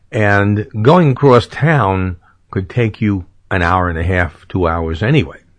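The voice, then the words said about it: New York City accent. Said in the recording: “I come from New York City. Sure, you couldn't tell by my accent.”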